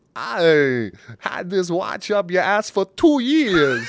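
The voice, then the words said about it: Imitates another person's voice. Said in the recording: “Is that Christopher Walken? ... It's Christopher Walken, man ... It's a little Borat”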